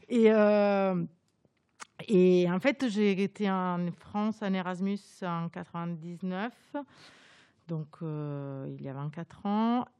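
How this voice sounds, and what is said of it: Italian accent speaking French. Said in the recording (French): “Moi, je suis italienne, comme vous pouvez l'entendre, mon accent, duquel j'arrive absolument pas à me séparer.”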